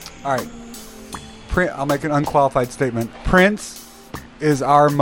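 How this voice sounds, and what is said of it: Usual voice. Nothing is said of it.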